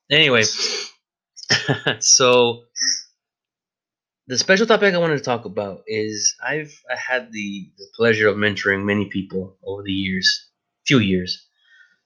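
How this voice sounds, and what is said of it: Voice off from a cold. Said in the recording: “my voice is sounding a little off because I'm fighting a cold right now”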